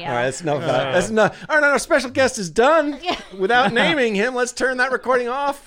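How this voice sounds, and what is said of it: Monotone radio announcer voice. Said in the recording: “You actually sound really good on the radio ... You've got a good, you've got a good monotone, boring radio voice.”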